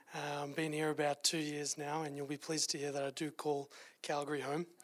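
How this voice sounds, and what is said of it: Australian accent. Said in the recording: “as you could tell from the accent ... I am from Australia originally”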